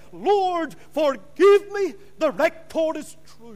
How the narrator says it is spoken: awoke and he cried

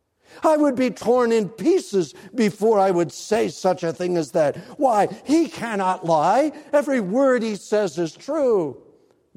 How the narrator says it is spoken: she cried

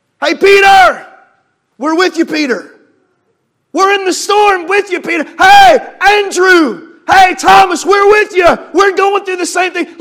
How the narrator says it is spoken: those other little ships out in the water, you know, they could have hollered up

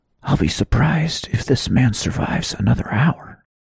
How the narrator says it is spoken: Adam whispered

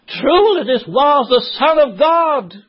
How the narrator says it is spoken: he cried out

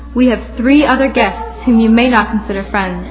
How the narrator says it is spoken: Mother added firmly

